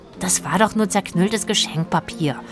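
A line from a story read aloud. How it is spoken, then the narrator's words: Whisper. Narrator (German): flüsterte Rufus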